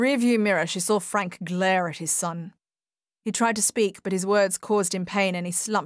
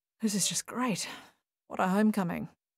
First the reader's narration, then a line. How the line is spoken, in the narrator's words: murmured Paul